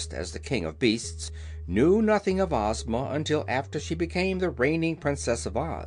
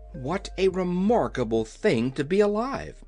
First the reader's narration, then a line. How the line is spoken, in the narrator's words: exclaimed Dorothy